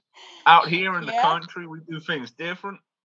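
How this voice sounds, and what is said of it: Put-on American country accent. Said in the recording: “Can you talk in an American accent? What we sound like? ... Country.”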